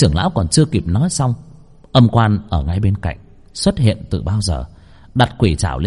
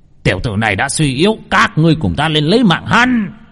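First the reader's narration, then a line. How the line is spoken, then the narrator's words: Sudden shout. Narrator (Vietnamese): Bỗng nhiên tên trưởng lão bên cạnh Vương Phong hét lên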